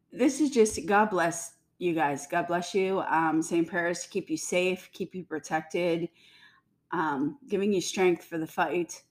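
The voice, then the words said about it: Slightly congested voice, clearing throat. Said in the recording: “I have a little bit of a cold, so I'm sorry. I'm clearing my throat here.”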